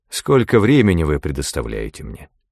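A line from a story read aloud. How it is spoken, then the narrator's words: More moderate tone. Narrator (Russian): сказал он, задавая свой третий вопрос более умеренным тоном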